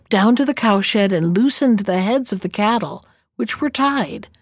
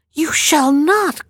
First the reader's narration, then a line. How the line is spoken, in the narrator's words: cried the black gallows bird